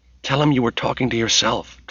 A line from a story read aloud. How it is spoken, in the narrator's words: Tracy whispered